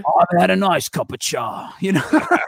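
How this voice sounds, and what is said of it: Imitates a TV character's voice. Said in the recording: “talking like Billy Butcher”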